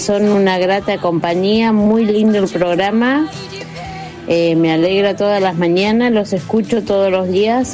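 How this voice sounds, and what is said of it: Speaks with a regional accent. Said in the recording (Spanish): “la tonada de”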